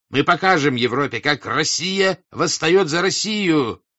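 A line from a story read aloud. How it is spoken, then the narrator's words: Shouting. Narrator (Russian): кричал дворянин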